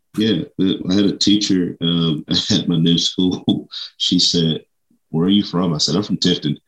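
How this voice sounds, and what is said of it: South Georgia accent. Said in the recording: “that's just what y'all do in South Georgia ... Why do you sound like that? ... this is the accent.”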